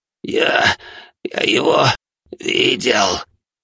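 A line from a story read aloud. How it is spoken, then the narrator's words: Hoarse wheeze. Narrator (Russian): прохрипел он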